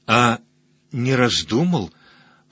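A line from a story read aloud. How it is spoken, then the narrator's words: Whispered question. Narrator (Russian): прошептала Найдена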